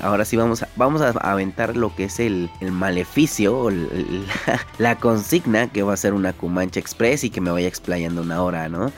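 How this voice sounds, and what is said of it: Hoarse throat, deep announcer-like voice. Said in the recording (Spanish): “malito de la garganta ... estoy un poco indispuesto de la garganta. Como lo han de escuchar, tengo ahora sí voz de locutor”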